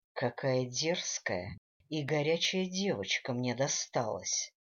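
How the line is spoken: Whispered. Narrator (Russian): шептал Дэниел

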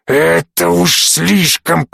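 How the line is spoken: Hoarse wheeze. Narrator (Russian): прохрипел граф

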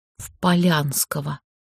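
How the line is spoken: Sad near-whisper. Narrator (Russian): Вероника подняла на подруг печальные глаза и тихо, почти шепотом, сообщила

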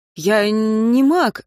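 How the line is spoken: Stammering. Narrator (Russian): сказал он, запинаясь

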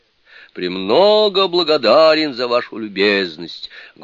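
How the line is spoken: Loud reply. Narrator (Russian): громко отвечал Суни-кун

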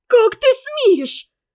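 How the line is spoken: Angry shout. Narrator (Russian): закричала на него Ферсанова

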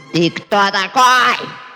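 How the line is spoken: Woman shouting. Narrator (Russian): закричала она

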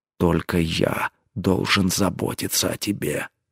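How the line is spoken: Jealous growl. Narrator (Russian): съедаемый ревностью рыкнул он

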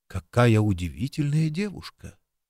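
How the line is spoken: Said in undertone. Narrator (Russian): он вполголоса сказал Джимми

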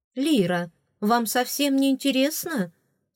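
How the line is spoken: Reproachful exclamation. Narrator (Russian): С упреком воскликнула Лиера Бри

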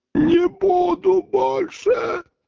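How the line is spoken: Hoarse wheeze. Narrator (Russian): прохрипел голова

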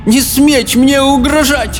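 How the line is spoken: Tired, breaking shout. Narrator (Russian): Усталым, ломким голосом крикнула

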